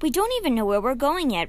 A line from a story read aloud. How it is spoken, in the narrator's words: Rennie gasped